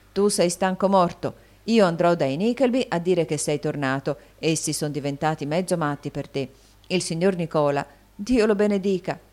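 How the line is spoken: Exclaimed. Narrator (Italian): esclamò Smike

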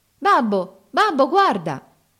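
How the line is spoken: Joyful child exclaiming. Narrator (Italian): esclamò il più piccolo tutto felice

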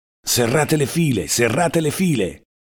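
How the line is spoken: Curt shout. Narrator (Italian): ci gridava con voce secca

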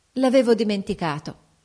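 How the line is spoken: Mock-angry exclamation. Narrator (Italian): esclamò fingendo di essere in collera con se stessa

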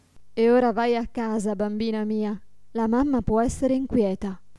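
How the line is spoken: Plain. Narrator (Italian): disse

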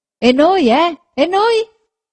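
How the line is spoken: Several voices shouting. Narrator (Italian): gridarono più voci

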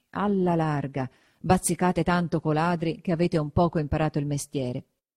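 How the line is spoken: Muttering through teeth. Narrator (Italian): mormorava tra denti

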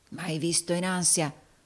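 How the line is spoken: Murmured. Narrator (Italian): mormorò Rodolfo

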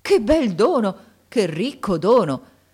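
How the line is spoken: Joyful exclamation. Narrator (Italian): esclamando con un trasporto di gioia

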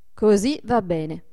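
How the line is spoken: Plain. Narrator (Italian): disse Adolfo

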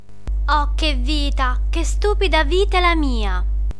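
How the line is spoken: Whiny theatrical muttering. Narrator (Italian): borbottava fra sé con la voce da piagnisteo d'una regina da tragedia

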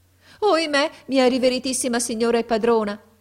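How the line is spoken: Woman's exclamation. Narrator (Italian): ella esclamò

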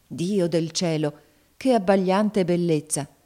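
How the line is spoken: Exclaimed. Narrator (Italian): esclamò Alfredo

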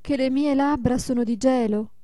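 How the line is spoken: Mother exclaiming. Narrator (Italian): esclamò la madre

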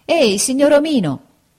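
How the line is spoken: Shouted. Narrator (Italian): gridò allora Pinocchio al padrone del carro

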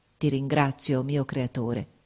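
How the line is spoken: Plain. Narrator (Italian): disse

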